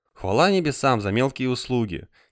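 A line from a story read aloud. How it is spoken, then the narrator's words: Quiet. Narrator (Russian): тихо сказала доктор Барлоу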